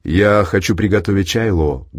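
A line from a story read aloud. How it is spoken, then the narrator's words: Plain, father. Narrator (Russian): говорит папа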